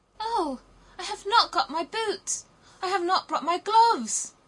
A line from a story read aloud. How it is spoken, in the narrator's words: cried little Gerda